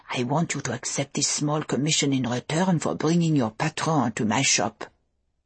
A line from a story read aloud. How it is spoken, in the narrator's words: she had whispered, her tone intimate and unpleasant